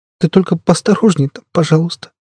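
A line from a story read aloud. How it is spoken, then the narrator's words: Sobbing. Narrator (Russian): она всхлипнула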